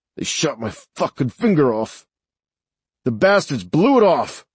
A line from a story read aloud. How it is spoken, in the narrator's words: through clenched teeth, he said